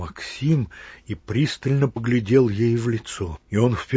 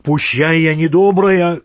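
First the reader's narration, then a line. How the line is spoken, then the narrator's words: Shouted. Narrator (Russian): крикнула она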